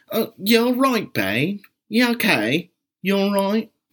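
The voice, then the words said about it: Deliberately bad put-on British accent. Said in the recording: “that horrible, horrible, horrible dialect ... It is a BBC show, kind of in the vein of The Great British Bake Off”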